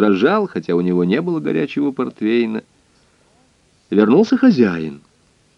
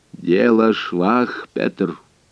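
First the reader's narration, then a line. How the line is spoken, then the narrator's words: Muffled, solemn. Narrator (Russian): глухо и торжественно произнес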